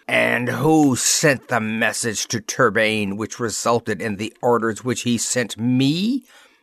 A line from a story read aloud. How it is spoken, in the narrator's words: demanded savagely